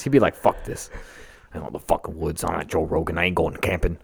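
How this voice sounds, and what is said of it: Good imitation of another person's voice. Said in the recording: “a really good Joey Diaz impression. And I mean that both in the voice”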